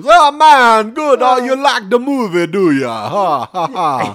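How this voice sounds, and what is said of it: Put-on exaggerated Jamaican accent. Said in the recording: “the worst fucking Jamaican accent I'd ever heard ... that must be a real Jamaican accent”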